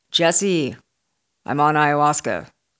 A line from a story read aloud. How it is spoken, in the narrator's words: slurred